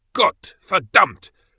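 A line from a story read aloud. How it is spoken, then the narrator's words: Roaring. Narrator (German): brüllte er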